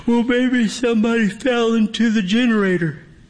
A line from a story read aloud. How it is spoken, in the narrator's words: Eric stifles a yawn as he answers